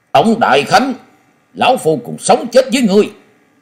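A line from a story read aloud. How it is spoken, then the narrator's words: Roaring like tiger. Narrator (Vietnamese): phiêu bình khách Lý Kỳ giọng như hổ gầm nói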